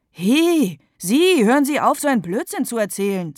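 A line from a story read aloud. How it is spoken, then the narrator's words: Loud, determined. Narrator (German): sagt Mama laut und entschlossen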